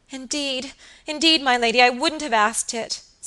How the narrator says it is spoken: sobbed Phoebe Marks

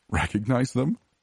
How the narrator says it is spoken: laughed

